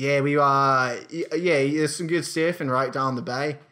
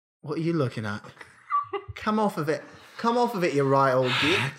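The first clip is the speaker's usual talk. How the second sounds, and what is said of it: Badly done put-on accent. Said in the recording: “totally bankrupt on the accent side of things, but it is fun to put it on ... even if the accent is bad”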